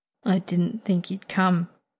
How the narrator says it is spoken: Anton mutters eventually

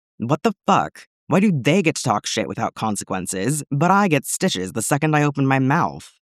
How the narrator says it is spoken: Pons growled

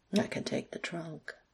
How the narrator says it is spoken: Alex murmured

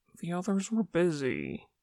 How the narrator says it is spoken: Mingyu mumbled

